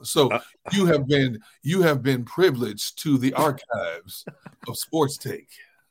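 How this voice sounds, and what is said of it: Smooth R&B radio DJ voice. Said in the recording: “R&B radio DJ voice”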